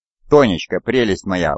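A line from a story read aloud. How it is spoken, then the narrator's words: Exclamation. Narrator (Russian): воскликнул Буров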